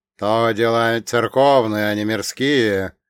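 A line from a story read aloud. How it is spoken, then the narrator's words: Stern, menacing monk. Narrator (Russian): грозно произнес простой монах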